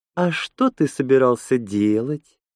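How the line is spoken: Sweet-voiced question. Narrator (Russian): сладким голосом спросила Лена

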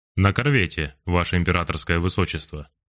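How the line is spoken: Matter-of-fact tone. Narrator (Russian): будничным тоном сообщил Лопухин

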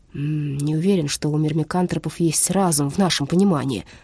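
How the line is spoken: Grumbling mutter. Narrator (Russian): буркнул Брандт

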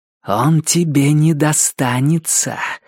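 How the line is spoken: Hissing. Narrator (Russian): прошипела охотница

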